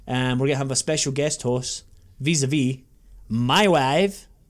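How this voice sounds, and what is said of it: Poor comic Borat accent impression. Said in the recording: “That was me trying to do a Borat impression. ... It was terrible.”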